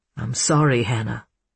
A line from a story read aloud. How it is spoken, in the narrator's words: he murmured